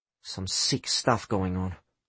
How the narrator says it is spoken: Adelio muttered angrily

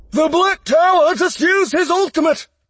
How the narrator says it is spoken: someone yelled in the busy war room

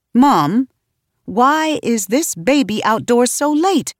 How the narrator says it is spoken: I asked, my voice rising by the syllable

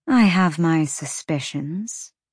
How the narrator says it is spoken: she said coolly

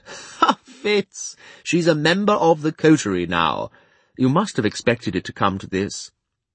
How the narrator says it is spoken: Chade burst into a laugh and said

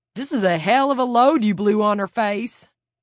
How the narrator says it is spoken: The roar of laughter that came from Kurt

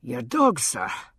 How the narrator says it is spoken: he said, and stood wheezing gently

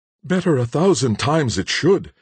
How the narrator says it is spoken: exclaimed the horror-struck Cora

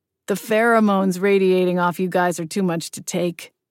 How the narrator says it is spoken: Charlie says dryly

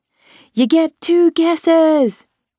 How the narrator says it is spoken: he shouted

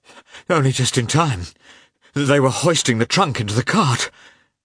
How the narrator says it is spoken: he gasped

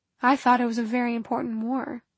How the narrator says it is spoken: Clary muttered under her breath

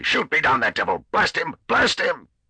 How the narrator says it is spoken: he thundered hysterically

